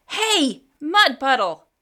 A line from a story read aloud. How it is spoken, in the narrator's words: yelled